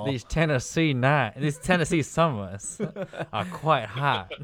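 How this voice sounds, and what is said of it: Put-on Southern US accent. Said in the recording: “You gotta say with a southern ... with a southern accent ... You got some molasses in your mouth”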